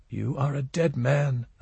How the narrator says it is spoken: a tiny voice whispered over and over

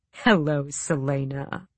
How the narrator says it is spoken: he purred

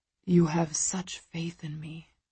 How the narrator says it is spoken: he whispers

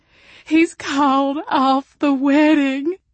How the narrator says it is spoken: she wailed

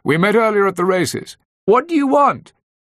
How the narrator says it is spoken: Claudia shouting back from inside

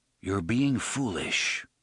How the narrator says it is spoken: said in the same mild voice

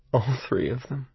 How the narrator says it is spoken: I muttered

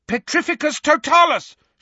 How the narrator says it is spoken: shouted Harry

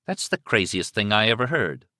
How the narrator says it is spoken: Liz said flatly

